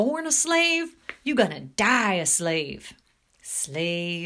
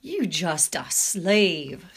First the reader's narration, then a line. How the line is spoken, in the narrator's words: sneered Major